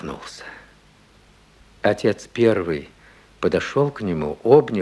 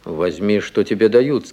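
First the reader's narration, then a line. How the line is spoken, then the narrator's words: Plain. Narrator (Russian): сказал исправник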